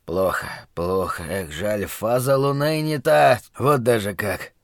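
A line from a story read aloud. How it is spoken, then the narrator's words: Fortune-teller muttering. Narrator (Russian): гадальщик бормотал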